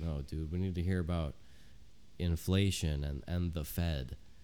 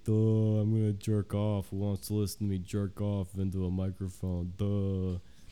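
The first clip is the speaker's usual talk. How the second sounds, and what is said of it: Mocking dumb-sounding voice. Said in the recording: “your dumb voice”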